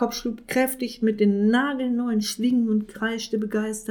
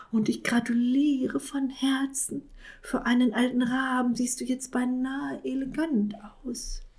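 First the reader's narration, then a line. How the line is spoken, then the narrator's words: Little cat whispering. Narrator (German): flüsterte der kleine Kater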